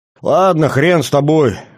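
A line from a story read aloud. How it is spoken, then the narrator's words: Snort. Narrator (Russian): хмыкнул Виктор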